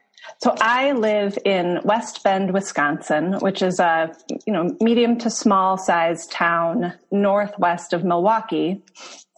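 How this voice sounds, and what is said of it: Non-English accent. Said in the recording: “we can tell from your accent that you are not in England.”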